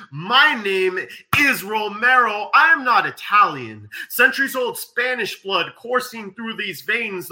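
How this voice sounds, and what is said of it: Southern Californian accent. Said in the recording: “the Southern Californian accent”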